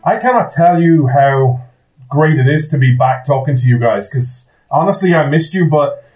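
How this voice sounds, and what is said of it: Irish accent. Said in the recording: “Irish man ... you come for the accent”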